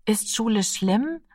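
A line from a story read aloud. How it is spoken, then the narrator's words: Fearful asking. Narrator (German): fragte er ängstlich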